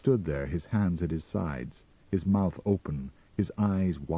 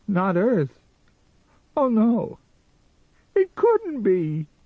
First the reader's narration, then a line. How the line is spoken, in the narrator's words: he wailed